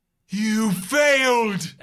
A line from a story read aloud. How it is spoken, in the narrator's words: Annabelle cries